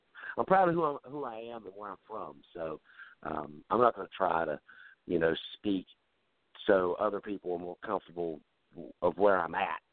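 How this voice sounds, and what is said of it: Strong southern US accent. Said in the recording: “I've got that broken wheelbarrow southern accent going on. ... I've not lost the accent yet.”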